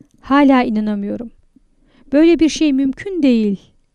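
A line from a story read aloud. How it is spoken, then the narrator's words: Laughing. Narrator (Turkish): güldü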